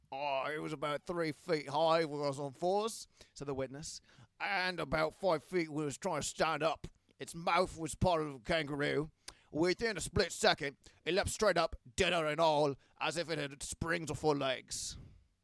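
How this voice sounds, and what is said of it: Bad put-on Australian accent. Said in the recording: “my really shitty Australian accent ... that was really, really bad ... That was really rough”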